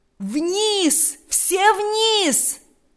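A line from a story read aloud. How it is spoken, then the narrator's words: Loud commanding shout. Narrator (Russian): закричал генерал громким, язычным голосом, перекрывшим все звуки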